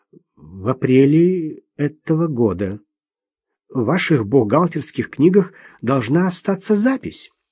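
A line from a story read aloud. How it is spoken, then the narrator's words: Stammering. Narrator (Russian): запинаясь, произнес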